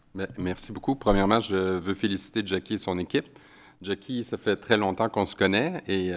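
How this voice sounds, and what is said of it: Québécois French accent. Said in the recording (French): “j'ai un accent ... des fois on a des expressions au Québec”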